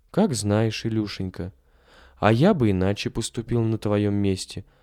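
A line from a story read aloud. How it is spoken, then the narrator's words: Priest, plain. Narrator (Russian): сказал священник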